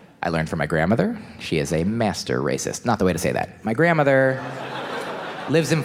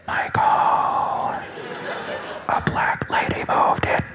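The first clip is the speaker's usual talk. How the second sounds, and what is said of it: Whispered, hushed voice. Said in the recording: “whisper is the racist accent ... told me about it in hushed tones”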